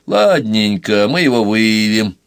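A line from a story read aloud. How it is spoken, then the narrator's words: Perfunctory routine tone. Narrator (Russian): произнес дежурным голосом Пашкова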